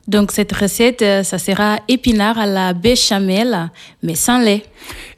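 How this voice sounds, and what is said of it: Slight Portuguese accent in French. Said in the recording (French): “on entend que vous avez un petit accent... Il vient du Portugal.”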